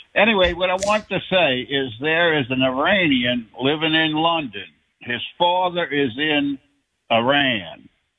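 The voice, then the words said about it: Louisiana Southern accent. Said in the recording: “I love the accent. ... I'm from Louisiana”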